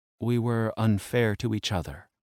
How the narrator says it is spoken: she said in a quiet voice

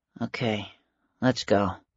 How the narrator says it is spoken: muttered

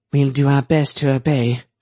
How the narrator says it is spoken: she said dryly

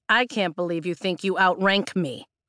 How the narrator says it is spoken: Brennan says, his tone sharpening

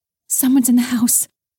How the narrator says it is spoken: Haley whispered urgently

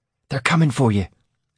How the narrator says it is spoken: said excitedly

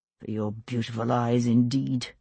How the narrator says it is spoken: he muttered, but couldn't help smiling

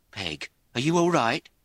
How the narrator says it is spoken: A woman's voice said breathlessly

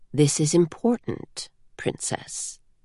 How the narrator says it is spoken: Denth said calmly

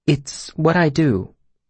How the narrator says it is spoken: she continued, her voice quiet

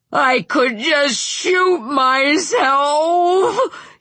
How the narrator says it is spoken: he cried

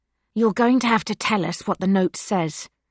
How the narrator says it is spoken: Elena hisses through her scarf

